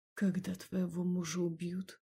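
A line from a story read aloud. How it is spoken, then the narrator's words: Quiet, lifeless tone. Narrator (Russian): Тихо, с безжизненной интонацией, сказал он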